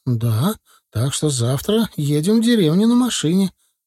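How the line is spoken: Joyful. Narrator (Russian): радостно сообщила Галия

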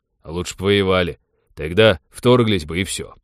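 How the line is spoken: Gloomy. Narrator (Russian): мрачно сказал пилот

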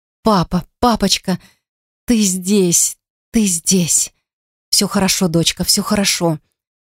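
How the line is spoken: Tender whisper. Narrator (Russian): шептал он, ласково

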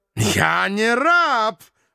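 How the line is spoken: Indignant roar. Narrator (Russian): возмущенно взревел парламентер

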